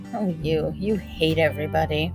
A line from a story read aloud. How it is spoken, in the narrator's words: Harriet heard her mutter